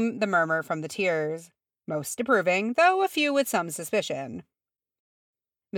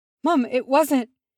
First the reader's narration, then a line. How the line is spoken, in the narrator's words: Gimrise gasped